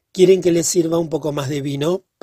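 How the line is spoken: Shy, embarrassed question. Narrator (Spanish): preguntó el señor Homburger en tono cohibido

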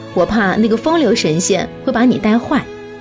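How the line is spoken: Joking. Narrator (Chinese): 白素贞开玩笑说

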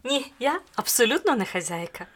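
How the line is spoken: Young lady's cheerful shout. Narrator (Ukrainian): весело закричала панна

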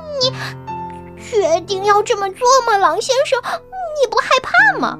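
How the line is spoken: Loud laughter. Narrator (Chinese): 大灰狼大笑着

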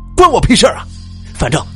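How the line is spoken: Furious loud voice. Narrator (Chinese): 李涛更加的怒火万丈，大声说道

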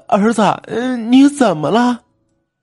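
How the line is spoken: Choked-up question. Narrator (Chinese): 陈妈哽咽的问

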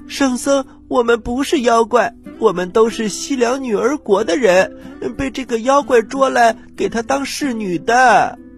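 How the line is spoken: Sobbing women. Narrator (Chinese): 那些侍女 哭哭啼啼地说

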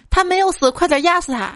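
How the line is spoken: Sudden loud shout. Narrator (Chinese): 二货女友突然大声喊

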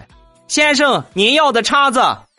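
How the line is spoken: Loud shout. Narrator (Chinese): 服务员冲我大喊

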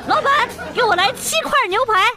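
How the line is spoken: Loud shout. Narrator (Chinese): 女朋友……大叫

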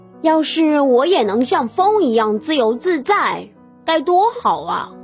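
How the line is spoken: Plain. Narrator (Chinese): 杰克说

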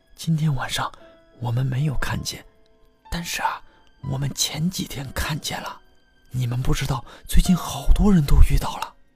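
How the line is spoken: Hushed, low voice. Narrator (Chinese): 一个学音乐的女生压低了声音说

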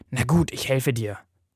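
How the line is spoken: Sighing. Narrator (German): seufzt

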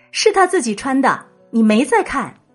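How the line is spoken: Child, loud retort. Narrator (Chinese): 第二个娃娃呢，却总是高声反驳

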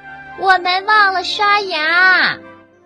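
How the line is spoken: Shouting. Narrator (Chinese): 阿尔菲喊道

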